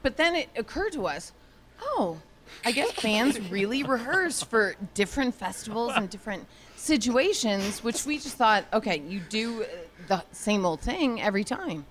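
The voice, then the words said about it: Drunk-sounding, slurred speech. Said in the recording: “why I sound so drunk there? ... Because you're drunk. ... Because I was wasted.”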